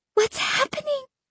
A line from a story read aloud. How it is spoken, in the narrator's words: I whispered